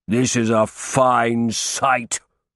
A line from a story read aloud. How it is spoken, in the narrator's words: thundered